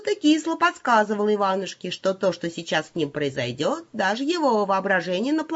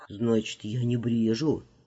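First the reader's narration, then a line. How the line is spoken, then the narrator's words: Muttering to himself. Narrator (Russian): пробормотал Иванушка, спрашивая скорее себя самого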